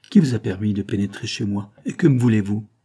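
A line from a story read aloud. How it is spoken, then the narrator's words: Harsh, curt speech. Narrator (French): Elle parlait durement et sèchement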